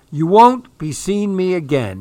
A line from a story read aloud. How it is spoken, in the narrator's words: he cried